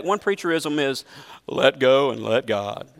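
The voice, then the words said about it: Exaggerated preacher voice. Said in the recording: “That's my best preacher voice, by the way. Aren't you glad I don't preach that way?”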